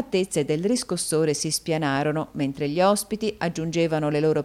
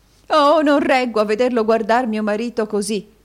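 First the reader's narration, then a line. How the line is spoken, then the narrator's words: Exclaimed. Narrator (Italian): esclamò la signora Kenwigs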